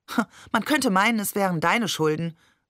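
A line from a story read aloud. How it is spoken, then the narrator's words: Plain. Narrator (German): sagte Maman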